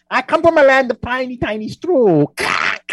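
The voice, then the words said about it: Strange put-on foreign accent. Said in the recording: “I have a strange accent”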